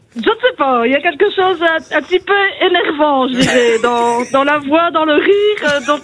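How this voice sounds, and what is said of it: Belgian French accent. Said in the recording (French): “Vous avez un accent chelou, vous aussi, non? ... Vous avez un très bel accent belge”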